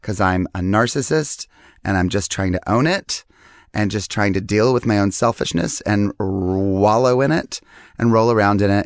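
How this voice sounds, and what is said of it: Hoarse, strained, worn-out voice. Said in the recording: “If you can kind of hear, my voice is all ripped apart because I'm doing this show right now that I'm screaming in”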